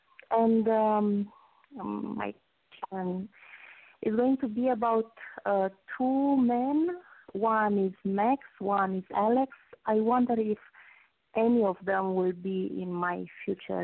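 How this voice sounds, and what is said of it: Romanian accent. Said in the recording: “I detect an accent ... I'm Romanian. ... Oh, what a beautiful accent. Ukrainian, Romanian. I love just all the Eastern Bloc. I love the accent.”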